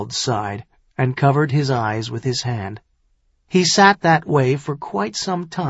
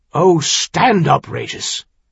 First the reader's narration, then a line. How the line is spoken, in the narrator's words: he half-snapped